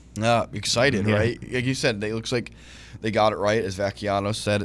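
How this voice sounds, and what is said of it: Slightly raspy voice. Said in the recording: “A little raspy and a little coffee”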